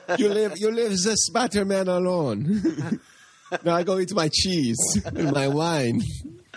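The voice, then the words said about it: Terrible put-on French accent. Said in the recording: “replace like all the New York and Brooklyn accents with French accents ... another terrible accent”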